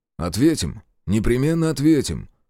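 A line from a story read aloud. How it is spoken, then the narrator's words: Calm, inner turmoil. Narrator (Russian): Спокойно отозвался Зотов, хотя внутри все клокотало и прыгало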